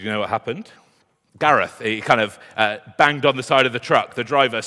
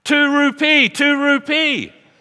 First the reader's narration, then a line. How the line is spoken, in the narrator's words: shouted